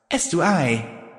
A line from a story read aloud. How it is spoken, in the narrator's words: I said